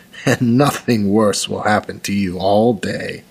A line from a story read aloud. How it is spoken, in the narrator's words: said, laughing softly